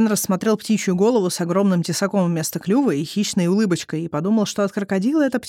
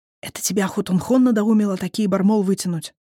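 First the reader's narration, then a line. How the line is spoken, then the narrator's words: Hissing. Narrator (Russian): прошипел он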